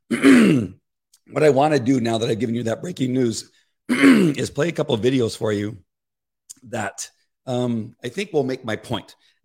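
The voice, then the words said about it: Rough voice needing clearing. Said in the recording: “I'm so sorry about my voice. I'm trying to get it cleared up and it just won't go.”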